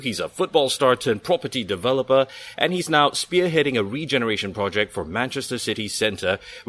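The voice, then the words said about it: Smooth, sexy radio presenter voice. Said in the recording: “Love your sexy radio voice.”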